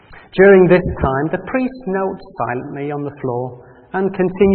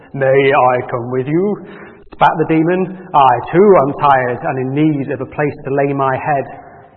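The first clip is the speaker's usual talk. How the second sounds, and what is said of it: Deep demon character voice. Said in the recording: “Demons have quite a deep voice.”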